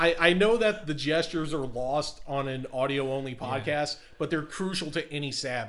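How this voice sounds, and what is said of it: Usual voice. Nothing is said of it.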